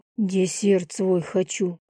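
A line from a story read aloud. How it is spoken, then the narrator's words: Breathed out. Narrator (Russian): выдохнул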